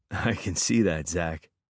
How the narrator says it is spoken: I laughed

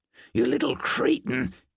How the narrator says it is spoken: hissed

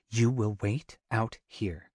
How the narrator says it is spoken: she orders stiffly

